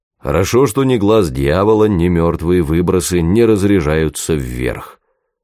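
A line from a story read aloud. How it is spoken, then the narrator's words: Deep bass voice. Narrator (Russian): пробасил Меньшов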